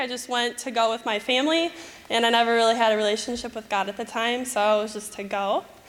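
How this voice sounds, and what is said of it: Michigan American accent. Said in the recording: “my Michigan accent”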